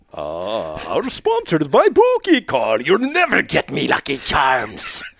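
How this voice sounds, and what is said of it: Pirate-like leprechaun accent. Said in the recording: “My accent's going in now. You know I'm 2 seconds from a pirate. ... Every accent you do, you turn into a pirate. ... It's a pirate leprechaun. ... Very small, angry.”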